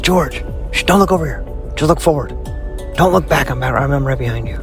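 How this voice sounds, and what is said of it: Whispering. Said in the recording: “I wonder why he's whispering ... I'm whispering”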